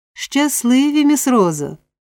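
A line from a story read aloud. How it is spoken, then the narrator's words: Exclaiming. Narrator (Ukrainian): вигукнув Олівер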